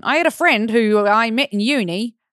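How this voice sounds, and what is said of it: Bad put-on Australian accent. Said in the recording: “I wish I could read this in an Australian accent. ... Okay, that was terrible.”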